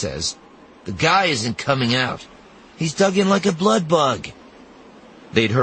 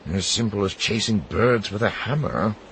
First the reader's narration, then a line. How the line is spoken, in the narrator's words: Sinjir mutters